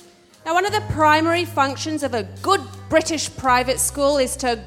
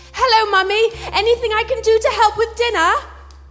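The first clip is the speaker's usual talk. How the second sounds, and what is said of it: Posh British accent. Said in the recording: “grind that regional accent out of you ... we developed two accents. We had one for inside ... speaking posh”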